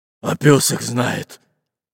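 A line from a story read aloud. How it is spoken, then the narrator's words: Grumbling mutter. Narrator (Russian): пробурчал толстобрюхий пират Буль-Буль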